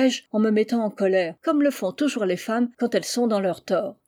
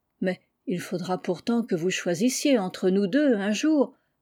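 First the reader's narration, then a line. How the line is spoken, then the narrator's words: Gently scolding insistence. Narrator (French): insista mon cousin, en ayant l'air de vouloir me gronder doucement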